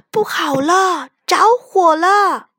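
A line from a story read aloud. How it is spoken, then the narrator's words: Alarmed shout. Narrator (Chinese): 雪孩子看见小木屋的窗里冒出黑烟和火星，大喊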